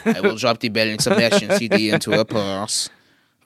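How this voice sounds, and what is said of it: Put-on French accent. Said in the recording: “That's a flawless French accent.”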